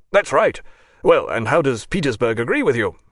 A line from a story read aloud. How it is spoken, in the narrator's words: shouted Bogatyrev